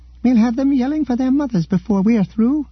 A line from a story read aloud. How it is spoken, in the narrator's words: cried the captain